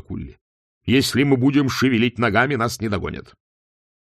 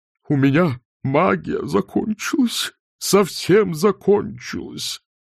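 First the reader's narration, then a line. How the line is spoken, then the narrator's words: Dean's moan. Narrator (Russian): простонал декан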